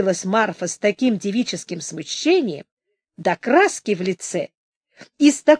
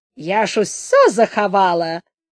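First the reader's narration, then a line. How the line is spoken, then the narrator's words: Laughing. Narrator (Russian): засмеялась и Марфа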